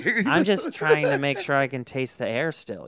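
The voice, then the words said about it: Imitates another person's voice. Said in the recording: “you're doing her voice”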